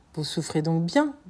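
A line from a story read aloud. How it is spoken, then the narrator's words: Plain question. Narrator (French): demanda Vampa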